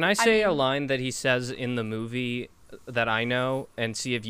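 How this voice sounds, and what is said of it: Usual voice. Nothing is said of it.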